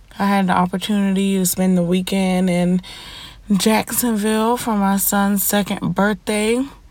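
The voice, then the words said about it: Scratchy, stuffy congested voice. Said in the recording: “my voice is a little scratchy or irritable, or if I sound a little stuffy ... my allergies and sinuses is kind of acting up”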